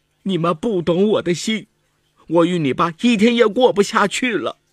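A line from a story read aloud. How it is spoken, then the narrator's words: Crying woman. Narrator (Chinese): 李文玉哭了，说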